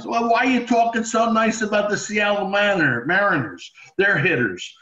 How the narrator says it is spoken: Steinbrenner used to yell at me

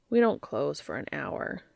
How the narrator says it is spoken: Dean murmured

